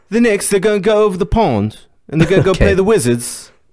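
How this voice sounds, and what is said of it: Put-on British accent. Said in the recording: “is going to be occasionally doing a British accent”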